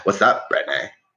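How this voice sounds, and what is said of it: Put-on Orange County accent. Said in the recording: “It's just ... but with like an OC accent ... Like I can't close my mouth because I'm smoking like a cigarette and drinking a Mike's Hard Lemonade.”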